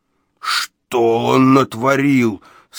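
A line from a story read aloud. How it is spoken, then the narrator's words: Moaning. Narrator (Russian): стонал Иеремия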